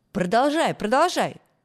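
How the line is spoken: Group of kids shouting. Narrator (Russian): закричали ребята

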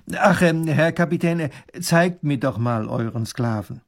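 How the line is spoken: Said loudly. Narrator (German): sagt er laut

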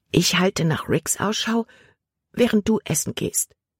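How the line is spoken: Whispered. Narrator (German): flüsterte Libby Caleb zu

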